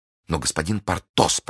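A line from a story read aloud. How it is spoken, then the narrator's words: Guilty whisper. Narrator (Russian): прошептала госпожа Кокнар, чувствуя себя виноватой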